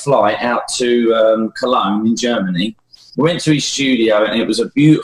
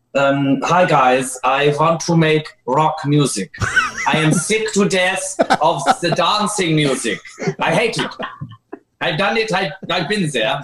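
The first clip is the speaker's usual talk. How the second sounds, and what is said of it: Put-on vaguely Scottish accent. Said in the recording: “I don't know what kind of accent that is. It's kind of Scottish. ... You're doing a good job.”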